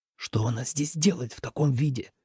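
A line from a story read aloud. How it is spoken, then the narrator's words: Whispered. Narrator (Russian): прошептал Лен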